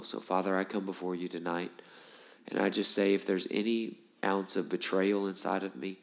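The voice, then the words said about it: Strained, unpleasant-sounding voice. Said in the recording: “I apologize for my voice. I know it's not nice to listen to. Hopefully it's better by Sunday.”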